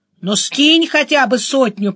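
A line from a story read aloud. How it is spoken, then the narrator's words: Grumbled. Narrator (Russian): проворчал Денис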